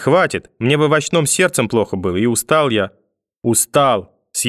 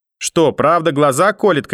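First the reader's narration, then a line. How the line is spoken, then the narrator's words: Grandmother shouting. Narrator (Russian): кричала бабушка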